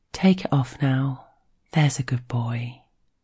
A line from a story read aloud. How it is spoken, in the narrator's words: she says it softly in his ear